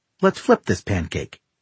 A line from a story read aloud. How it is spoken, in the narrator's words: she says cheerfully